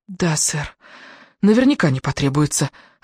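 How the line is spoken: Forced out, scared and angry. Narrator (Russian): выдавила она, одновременно напуганная и рассерженная

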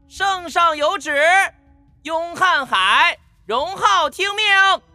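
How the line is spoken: Shrill, high-pitched voice. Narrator (Chinese): 内侍尖细的声音划破晨曦

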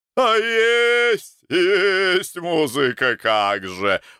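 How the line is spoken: Delighted shout. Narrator (Russian): в восторге закричал Боровой

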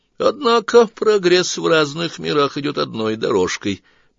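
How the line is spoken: Offhand remark. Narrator (Russian): мимоходом отметил Сварог и шумно вздохнул

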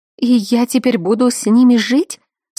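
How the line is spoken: Sobbing. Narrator (Russian): Всхлипнула

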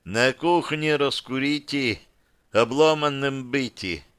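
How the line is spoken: Sleepy mouse voice. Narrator (Russian): также сонно произнесла мышь

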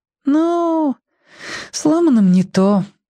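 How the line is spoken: Regretful sigh. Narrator (Russian): вздохнула Римка, будто очень жалела

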